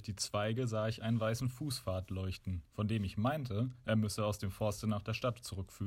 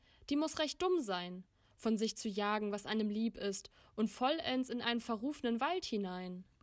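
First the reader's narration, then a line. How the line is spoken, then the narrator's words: Girl calling out, laughing. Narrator (German): rief das Mädchen lachend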